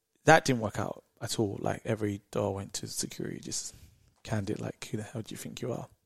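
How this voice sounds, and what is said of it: British accent. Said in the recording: “I'm from the UK. I'd use my British accent.”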